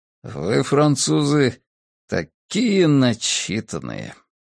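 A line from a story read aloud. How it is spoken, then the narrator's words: Grumbling. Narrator (Russian): проворчал Джессоп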